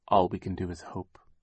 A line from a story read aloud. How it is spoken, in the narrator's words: Sunny said quietly